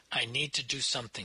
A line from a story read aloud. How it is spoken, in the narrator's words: she said